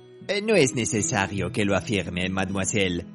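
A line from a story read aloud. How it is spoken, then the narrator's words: Plain. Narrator (Spanish): dijo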